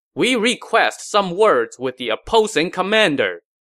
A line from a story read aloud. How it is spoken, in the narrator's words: A scout shouted